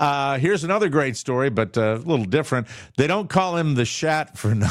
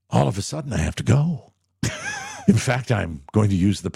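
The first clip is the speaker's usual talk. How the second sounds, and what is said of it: Imitates another person's voice. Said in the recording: “my William Shatner impression”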